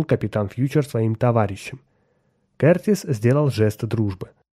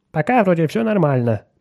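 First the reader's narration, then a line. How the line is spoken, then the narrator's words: Grumbling. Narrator (Russian): проворчал Отто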